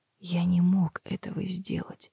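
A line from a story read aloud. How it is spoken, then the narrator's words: Whispering. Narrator (Russian): прошептал он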